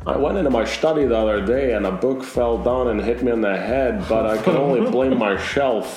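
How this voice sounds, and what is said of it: Poor Sean Connery impression. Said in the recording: “appalling Sean Connery impression”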